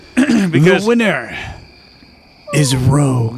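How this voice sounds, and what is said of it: Spooky creepy announcer voice. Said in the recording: “announce the winner for me in like a creepy voice?”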